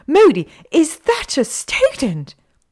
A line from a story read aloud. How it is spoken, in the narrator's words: shrieked Professor McGonagall